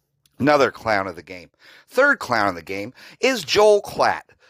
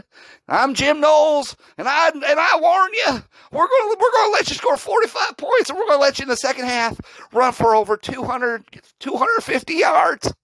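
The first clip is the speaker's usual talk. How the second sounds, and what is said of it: Impression of Jim Knowles. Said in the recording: “That's Jim Knowles. That's my best impression of Jim Knowles.”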